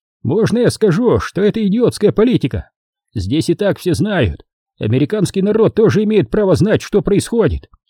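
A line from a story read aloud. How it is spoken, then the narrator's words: Shouted. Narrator (Russian): Он крикнул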